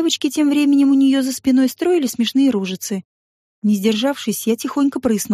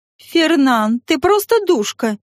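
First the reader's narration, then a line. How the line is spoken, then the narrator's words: Joyful exclamation. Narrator (Russian): радостно воскликнула Элоиз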